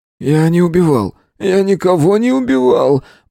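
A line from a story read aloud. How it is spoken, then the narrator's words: Groaning. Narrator (Russian): Простонал Зотов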